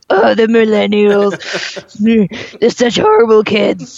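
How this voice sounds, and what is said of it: Poor impression of a cartoon character. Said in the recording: “sound like, what are Marge Simpson sisters? ... That was a terrible impersonation.”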